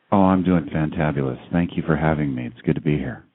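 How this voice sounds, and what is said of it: Smooth radio announcer voice. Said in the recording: “talk about a radio voice.”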